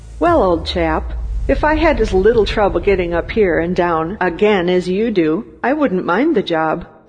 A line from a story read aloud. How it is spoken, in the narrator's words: the workman remarked cheerfully